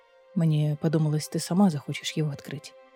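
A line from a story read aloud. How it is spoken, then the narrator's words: Quiet explaining. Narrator (Russian): тихо пояснил Адерландский король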